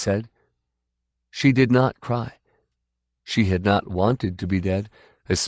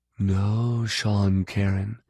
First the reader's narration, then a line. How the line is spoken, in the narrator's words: she said evenly